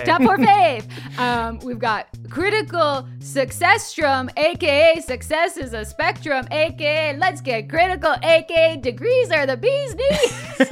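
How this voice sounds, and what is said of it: Impression of a fellow host. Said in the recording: “That's me doing a Jake impression.”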